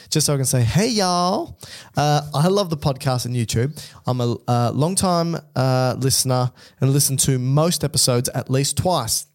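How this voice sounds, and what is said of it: Put-on American accent. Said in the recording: “can I put on an accent here? ... can I just assume this is an American accent?”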